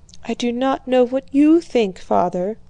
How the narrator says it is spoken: whispered the princess

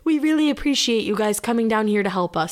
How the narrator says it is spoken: he said

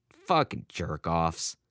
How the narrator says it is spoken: his father muttered

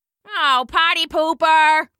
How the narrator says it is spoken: someone shouted

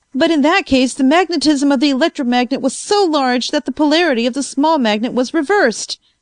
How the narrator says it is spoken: I cried

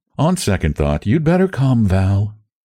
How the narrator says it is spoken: she announced coolly

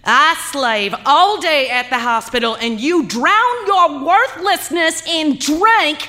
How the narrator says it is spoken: she screamed

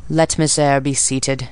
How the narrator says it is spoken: he said, in the impatient yet formal tone

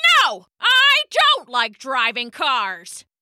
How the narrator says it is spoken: shouted Mr

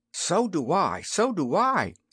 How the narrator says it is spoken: exclaimed little Prince Philador

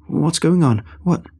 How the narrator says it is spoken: I tried to stammer out a question, feeling breathless

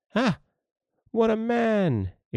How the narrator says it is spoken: exclaimed the lad

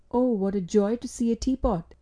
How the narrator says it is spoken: exclaimed Mrs

